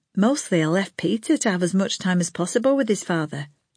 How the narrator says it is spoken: Lana said

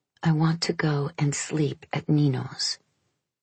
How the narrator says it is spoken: She whispered

